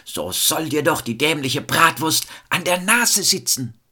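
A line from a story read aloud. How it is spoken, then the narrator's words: Resentful scream. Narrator (German): da stieg der pure Groll in ihm auf und er schrie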